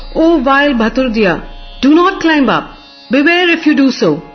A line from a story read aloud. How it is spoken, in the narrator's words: roared